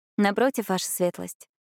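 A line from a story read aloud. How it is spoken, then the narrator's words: Calm reply. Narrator (Russian): ответила ему Бьянка спокойно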